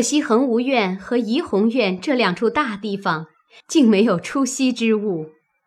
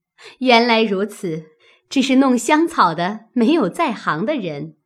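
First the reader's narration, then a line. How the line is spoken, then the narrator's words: Laughing. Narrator (Chinese): 探春笑道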